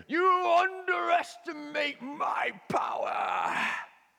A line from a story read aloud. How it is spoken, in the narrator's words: he's so angry, and he shouts up to Anakin